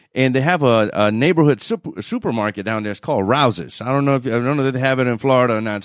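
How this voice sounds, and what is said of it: New Orleans accent. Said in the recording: “I'm originally from New Orleans... This is where the accent comes from”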